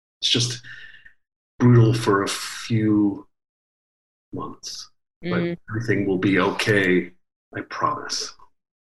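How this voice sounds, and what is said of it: Soothing, calm reassuring voice. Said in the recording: “in your soothing voice”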